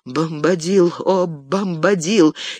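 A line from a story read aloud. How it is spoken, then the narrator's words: Weak trembling little voice. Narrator (Russian): Слабым дрожащим голоском он начал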